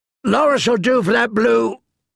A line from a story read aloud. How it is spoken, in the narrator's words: a companion answered before a roar drowned out the rest of his words